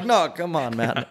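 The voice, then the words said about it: Put-on Indian accent sounding Jamaican. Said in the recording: “my Indian accent sounded like the lobster or the crab and fucking mermaid ... It's Jamaican.”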